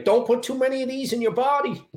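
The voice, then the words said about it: Imitates another person's accent. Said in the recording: “you gotta do the accent too”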